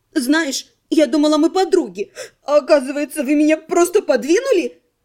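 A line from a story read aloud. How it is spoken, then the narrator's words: Sobbing. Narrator (Russian): Всхлипывая, обратилась к некромантке Элира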